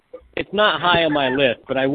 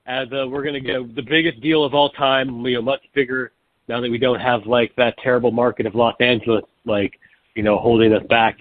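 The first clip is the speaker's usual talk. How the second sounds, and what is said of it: Weak Donald Trump impression. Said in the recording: “you need to work on your Trump impression.”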